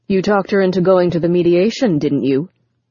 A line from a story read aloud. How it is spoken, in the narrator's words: Richard snapped